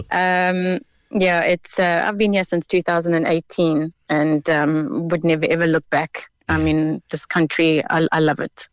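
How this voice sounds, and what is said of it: South African accent. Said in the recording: “That's not an East Cork accent. ... it's not. It's South African.”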